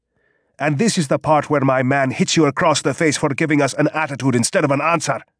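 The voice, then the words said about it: Thick Afrikaans accent. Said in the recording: “He spoke in a thick Afrikaans accent.”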